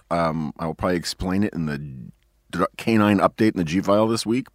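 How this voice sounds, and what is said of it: Hoarse, strained voice. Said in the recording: “I'm a little hoarse ... I think that's how I lost my voice ... sounding like a sort of transgender Lorne Bacall”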